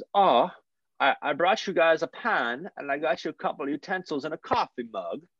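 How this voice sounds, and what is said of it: Put-on Swedish accent. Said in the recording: “I'm going to do my Swedish accent.”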